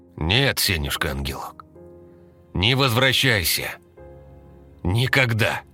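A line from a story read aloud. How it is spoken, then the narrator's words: Shouting. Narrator (Russian): крикнул Сухарев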